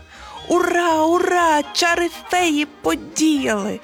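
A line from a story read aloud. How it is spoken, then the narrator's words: Loud happy shout. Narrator (Ukrainian): голосно та щасливо закричала вона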